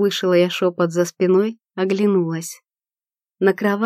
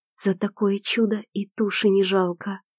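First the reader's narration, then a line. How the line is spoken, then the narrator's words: Barely audible whisper. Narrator (Russian): прошептала еле слышно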